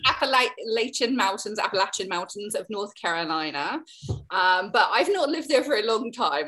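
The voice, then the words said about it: Deep Southern American accent. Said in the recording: “very deep south of America, as you can hear from my accent.”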